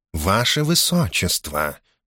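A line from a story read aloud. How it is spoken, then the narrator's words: Soft interruption. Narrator (Russian): мягко перебил ее Корхан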